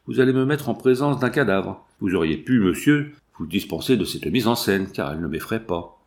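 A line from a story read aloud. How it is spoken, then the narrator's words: Cold. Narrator (French): dit-il froidement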